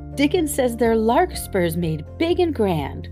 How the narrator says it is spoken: cried Mistress Mary

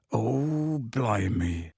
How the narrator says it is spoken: said Hagrid quietly

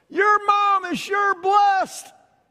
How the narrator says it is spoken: a lady hollered out

